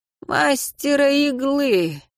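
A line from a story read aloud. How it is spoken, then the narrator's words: Sad dead man. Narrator (Russian): грустно сказал мертвец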